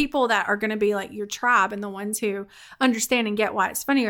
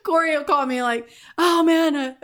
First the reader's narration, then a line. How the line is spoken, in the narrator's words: I yelled